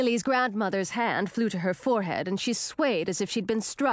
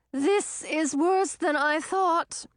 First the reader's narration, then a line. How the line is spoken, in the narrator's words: she said in a strained voice